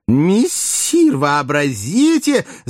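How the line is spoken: Excited joyful shout. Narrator (Russian): закричал возбужденный радостно Бегемот

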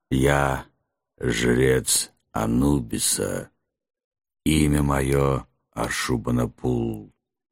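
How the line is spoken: Strained creaky monster voice. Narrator (Russian): проскрипел монстр, с трудом двигая подвязанной челюстью

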